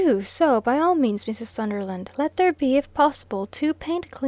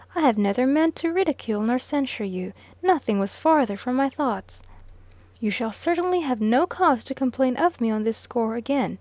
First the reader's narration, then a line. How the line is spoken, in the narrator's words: still a little warmly